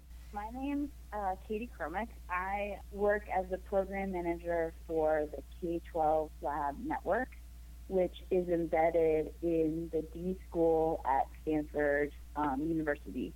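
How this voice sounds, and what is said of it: Slightly hoarse voice. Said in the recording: “I'm getting over a cold. I'm a little hoarse”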